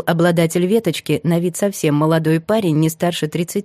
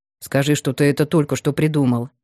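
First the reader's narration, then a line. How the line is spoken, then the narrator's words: Grumbled. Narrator (Russian): буркнул второй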